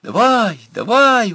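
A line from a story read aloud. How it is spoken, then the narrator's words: Crowd of girls yelling. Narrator (Russian): вопили девки вокруг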